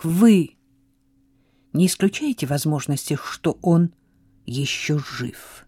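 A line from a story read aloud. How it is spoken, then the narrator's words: Quiet question. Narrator (Russian): тихо спросила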